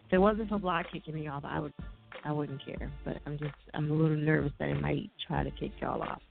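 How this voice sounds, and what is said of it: New Jersey accent. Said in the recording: “my Jersey accent”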